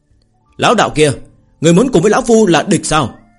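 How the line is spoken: Cold loud shout. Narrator (Vietnamese): Kim Quang lão tổ lạnh giọng hét lớn

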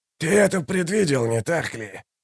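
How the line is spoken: Hissed. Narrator (Russian): прошипел Каллор

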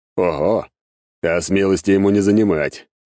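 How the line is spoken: Smirking snort. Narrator (Russian): хмыкнул бес

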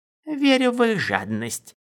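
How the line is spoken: Approving grunt. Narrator (Russian): Дорин одобрительно хмыкнул

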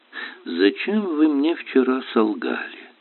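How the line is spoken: Sweet tone. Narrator (Russian): милым тоном начал воин

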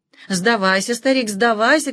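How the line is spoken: Shouting. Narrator (Russian): кричал Агабек

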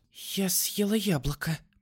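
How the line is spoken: Whispered. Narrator (Russian): прошептала она

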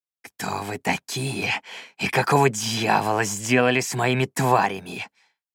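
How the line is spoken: Growled. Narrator (Russian): прорычал Юхан

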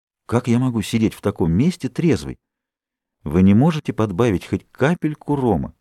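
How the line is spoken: Polite, gentle request. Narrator (Russian): попросил очень вежливо, ласково

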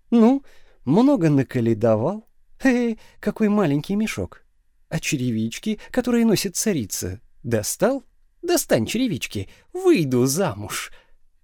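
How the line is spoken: Laughing. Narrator (Russian): засмеявшись

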